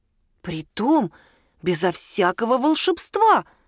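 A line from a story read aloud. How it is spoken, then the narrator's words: Exclaimed. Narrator (Russian): воскликнул Мишун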